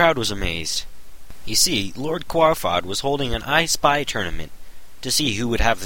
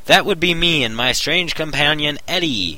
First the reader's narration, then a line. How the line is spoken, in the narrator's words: Omar shouted